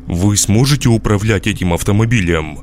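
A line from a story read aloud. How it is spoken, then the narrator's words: Irritated repetition. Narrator (Russian): раздраженно повторил я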